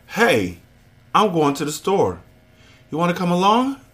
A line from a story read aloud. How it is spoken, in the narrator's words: gasping